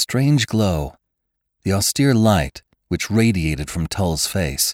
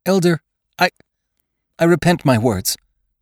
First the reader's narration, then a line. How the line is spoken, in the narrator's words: Jane faltered